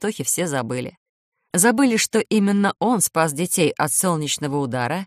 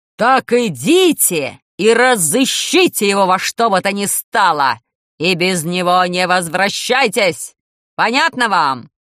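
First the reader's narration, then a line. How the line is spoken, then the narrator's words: Terrifying shout. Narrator (Russian): закричал страшным голосом директор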